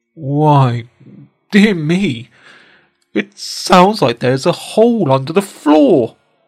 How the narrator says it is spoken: he cried

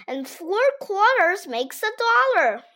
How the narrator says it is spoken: Ryan exclaimed

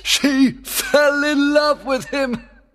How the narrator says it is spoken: cried Oberon with pleasure

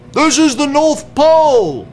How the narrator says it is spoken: he shouted

